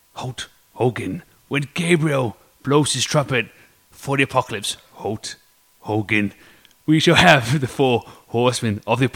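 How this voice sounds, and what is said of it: Imitates a wrestler's promo voice. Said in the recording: “my impersonation of Ultimate Warrior's classic Hulk Hogan, okay, I'm going to take over the plane and crash it speech ... one of the worst things you're ever going to hear on a podcast ... I'm getting the character”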